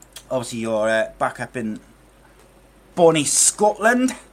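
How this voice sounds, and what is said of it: Poor put-on Scottish accent. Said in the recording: “Terrible Scottish accent. ... see if I can improve my Scottish accent”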